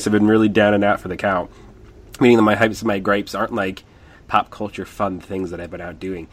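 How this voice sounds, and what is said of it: Sick-sounding voice. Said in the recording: “you can hear it in my voice.”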